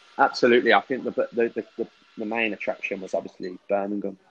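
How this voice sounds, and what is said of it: Birmingham English accent. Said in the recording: “you're a Birmingham boy ... You can tell by the uh, the accent.”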